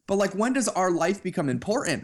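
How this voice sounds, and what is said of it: Raised, ranting voice. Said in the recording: “my voice is raised, I'm like ranting right now”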